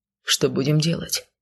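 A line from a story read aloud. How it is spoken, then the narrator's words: Quiet question. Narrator (Russian): негромко поинтересовался Сай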